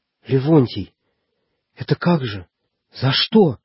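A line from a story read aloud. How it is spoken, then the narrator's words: Slight man, trembling voice. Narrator (Russian): дрогнувшим голосом начал было щупленький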